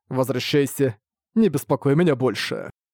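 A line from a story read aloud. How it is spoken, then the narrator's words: Calm reply. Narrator (Russian): Ван Линь спокойно ответил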